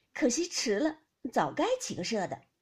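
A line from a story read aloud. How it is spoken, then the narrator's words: Laughing. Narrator (Chinese): 宝玉笑道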